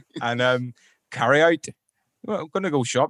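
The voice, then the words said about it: Northern Irish accent. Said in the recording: “really good at the Northern Irish accent. is pretty good.”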